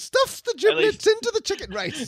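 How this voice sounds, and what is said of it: Bad high-pitched imitation of another person. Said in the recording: “do your high pitched Dan Aykroyd impression of Julia ... my bad Dan Aykroyd Julia Child impression”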